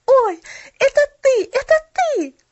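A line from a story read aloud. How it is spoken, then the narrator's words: Excited exclamation. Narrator (Russian): воскликнула она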